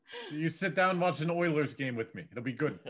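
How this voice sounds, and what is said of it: Convincing put-on accent. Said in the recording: “Why is your accent so good?”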